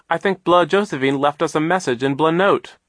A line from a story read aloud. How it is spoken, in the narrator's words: Klaus explained impatiently